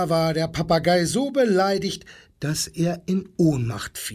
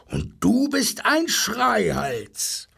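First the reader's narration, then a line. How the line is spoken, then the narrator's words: Roaring rhino. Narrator (German): brüllte das Nashorn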